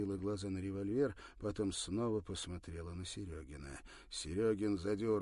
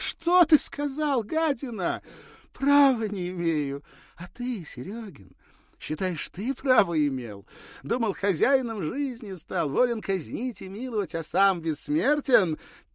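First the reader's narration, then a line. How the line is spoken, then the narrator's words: Intense whisper. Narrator (Russian): Перестав смеяться, прошептала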